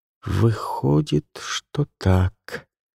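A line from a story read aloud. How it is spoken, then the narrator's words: Uncertain agreement. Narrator (Russian): неуверенно согласилась Каролина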